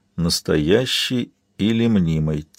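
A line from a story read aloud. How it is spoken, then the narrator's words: Quiet repeating. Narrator (Russian): тихо повторил Габриэл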